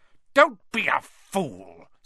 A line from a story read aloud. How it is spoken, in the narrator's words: snarled the face